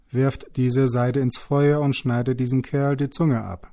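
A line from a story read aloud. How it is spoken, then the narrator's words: Angry shout. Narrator (German): Dann rief er zornig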